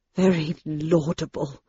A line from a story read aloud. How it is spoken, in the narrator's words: murmured Dr